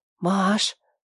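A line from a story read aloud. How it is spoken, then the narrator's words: Quiet voice. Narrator (Russian): тихо сказала она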